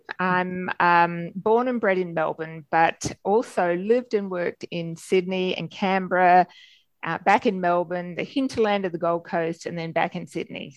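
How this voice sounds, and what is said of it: Australian accent. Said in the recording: “As you can tell from my accent, I'm Australian.”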